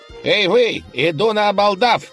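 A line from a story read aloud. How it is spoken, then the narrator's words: Nasal lisping shout. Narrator (Russian): крикнул молодой человек, гнусаво шепелявя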